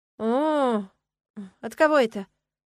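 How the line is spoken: Gloomy inquiry. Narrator (Russian): мрачно поинтересовалась я

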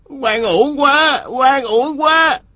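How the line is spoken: Wailing cry. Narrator (Vietnamese): Phó bả tổng kêu gào

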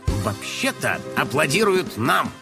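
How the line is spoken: Gruff mutter. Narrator (Russian): буркнул он

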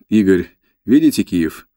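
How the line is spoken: Laughing. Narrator (Russian): Бонафеде рассмеялся

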